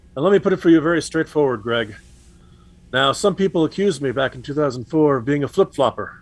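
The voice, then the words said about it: John Kerry impression. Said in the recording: “his John Kerry impression.”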